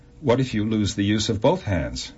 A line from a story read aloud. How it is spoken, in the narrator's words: laughed and said